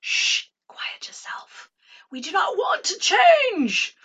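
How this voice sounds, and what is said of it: Put-on posh, highfalutin royal accent. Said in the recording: “Do you like my accent? ... I guess it's talking about royalty. ... we have to get a little highfalutin”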